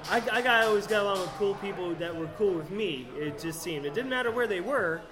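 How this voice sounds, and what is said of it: Rural Southern US accent. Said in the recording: “my accent, I'm a hick ... I grew up in Florida”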